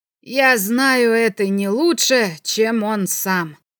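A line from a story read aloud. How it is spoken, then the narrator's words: Through gritted teeth. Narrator (Russian): сквозь зубы ответил Белопольский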